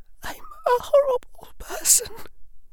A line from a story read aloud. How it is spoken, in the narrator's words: she said in a wavering voice